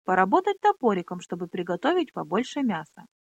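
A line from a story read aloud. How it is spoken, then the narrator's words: Cheerful laugh. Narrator (Russian): весело хохотнула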